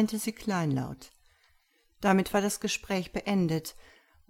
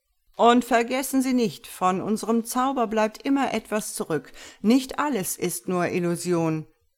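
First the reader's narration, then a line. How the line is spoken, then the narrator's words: Calling to audience. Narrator (German): rief Prosperino ins Auditorium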